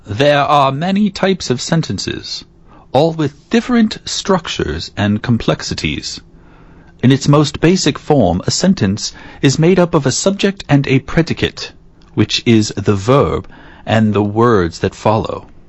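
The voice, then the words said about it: Snooty transatlantic accent. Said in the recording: “Can you tell me a sentence in the transatlantic accent? ... You're better at it than me ... I just tried to be as snooty as possible.”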